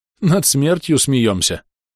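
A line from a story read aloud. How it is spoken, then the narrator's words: Tearful sigh. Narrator (Russian): вздохнул храбр, утирая слезы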